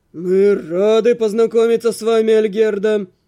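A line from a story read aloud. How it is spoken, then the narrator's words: Deep booming voice. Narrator (Russian): пробасил граф Неамонтер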